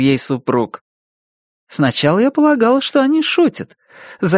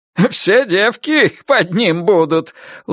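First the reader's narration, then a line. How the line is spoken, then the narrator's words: Satisfied guffawing old man. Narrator (Russian): удовлетворенно хохотал свекор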